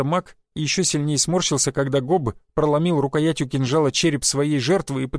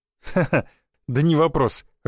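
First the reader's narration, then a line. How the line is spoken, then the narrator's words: Laughing. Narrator (Russian): рассмеялся я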